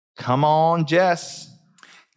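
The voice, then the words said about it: Poor imitation of Southern accent. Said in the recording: “We apologize to all Southern people. Those are not what your accent sounds like.”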